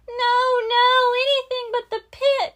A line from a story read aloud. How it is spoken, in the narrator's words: cried the Beagle Boys